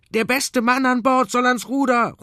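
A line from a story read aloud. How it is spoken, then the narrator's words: Called out. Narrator (German): ruft Michi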